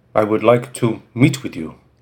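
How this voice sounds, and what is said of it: Heavy French accent. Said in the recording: “The voice had a heavy French accent”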